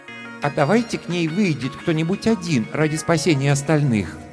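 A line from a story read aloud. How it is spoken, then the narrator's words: Timid suggestion. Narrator (Russian): робко предложил Арактур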